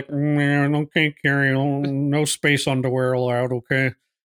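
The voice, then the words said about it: Imitates another person's voice. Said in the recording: “That's a pretty good impression there.”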